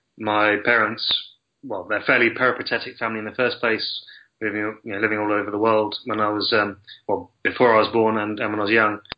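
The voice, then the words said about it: English accent. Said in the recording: “I've always had ever since I could speak anyway, I've had an English accent.”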